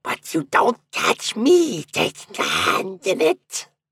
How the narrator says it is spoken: shrieked

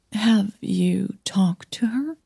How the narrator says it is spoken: Millie croaked

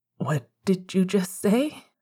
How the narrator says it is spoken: He breathed

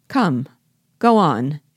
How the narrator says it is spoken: exclaimed Biassou impatiently

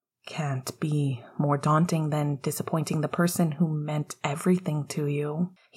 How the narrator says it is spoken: he replied softly

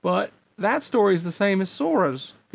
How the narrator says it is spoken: Goofy exclaimed almost before the replica had finished talking

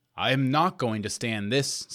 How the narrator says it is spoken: said he

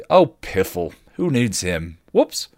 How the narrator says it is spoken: Willow scoffed

